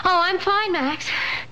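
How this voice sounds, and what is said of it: Out of breath, panting. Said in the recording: “How come you're out of breath? ... I had to run all the way downstairs to answer the phone.”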